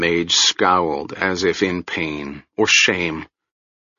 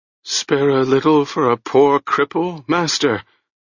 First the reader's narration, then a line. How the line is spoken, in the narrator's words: He whined